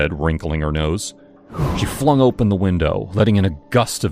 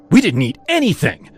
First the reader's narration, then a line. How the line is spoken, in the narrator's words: Jess snapped